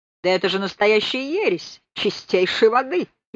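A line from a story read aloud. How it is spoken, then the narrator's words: Laughing. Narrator (Russian): и сам рассмеялся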